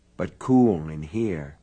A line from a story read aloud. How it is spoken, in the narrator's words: said soothingly